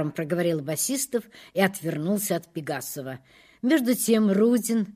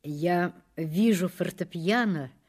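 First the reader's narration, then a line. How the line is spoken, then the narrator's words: Soft and gentle. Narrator (Russian): начал Рудин мягко и ласково, как путешествующий принц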